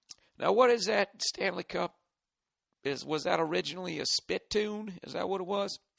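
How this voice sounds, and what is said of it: Put-on redneck Southern accent. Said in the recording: “why is he doing a redneck southern accent?”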